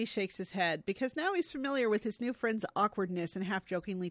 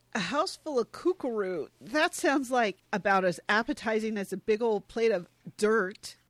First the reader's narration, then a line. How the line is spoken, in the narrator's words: Peter, in an attempt to joke, stammers out